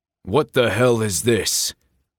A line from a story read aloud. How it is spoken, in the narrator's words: Connor bellowed